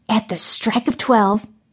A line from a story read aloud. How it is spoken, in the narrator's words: Mary whispered